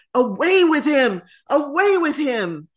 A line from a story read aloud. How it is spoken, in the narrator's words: The people press behind, shouting